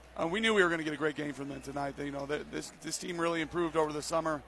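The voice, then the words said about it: Hoarse, fading voice. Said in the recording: “I'm losing my voice a little bit here.”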